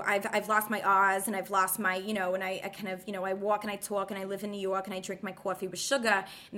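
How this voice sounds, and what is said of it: Put-on Brooklyn accent. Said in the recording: “the Brooklyn accent... if I'm talking like Brooklyn”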